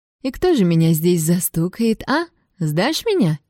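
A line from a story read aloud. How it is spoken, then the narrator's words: Giggling. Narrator (Russian): хихикнула я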